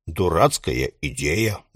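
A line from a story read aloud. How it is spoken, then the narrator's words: Gruff mutter. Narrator (Russian): буркнул дядя Том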